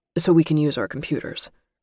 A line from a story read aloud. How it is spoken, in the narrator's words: he added quickly